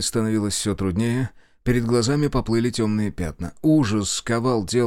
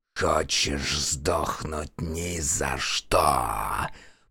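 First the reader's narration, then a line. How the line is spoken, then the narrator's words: Hoarse chimera rasp. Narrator (Russian): прохрипела химера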